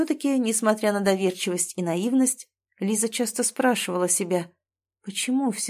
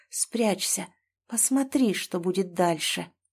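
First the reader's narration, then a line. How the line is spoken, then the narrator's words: Inner whisper. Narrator (Russian): что-то изнутри словно шептало, подсказывало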